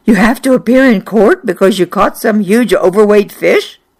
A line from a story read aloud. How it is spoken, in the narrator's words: When I told Fran, she gasped